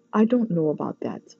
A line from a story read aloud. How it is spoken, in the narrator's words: Sunny said quietly